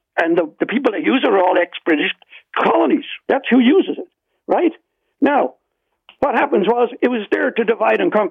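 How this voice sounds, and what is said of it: Irish accent. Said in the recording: “You hear my accent. ... Nobody in the world knows the British better than the Irish.”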